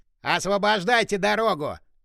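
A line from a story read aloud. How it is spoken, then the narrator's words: Furious bark. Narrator (Russian): Рявкнул мужик, лицо которого налилось дурной кровью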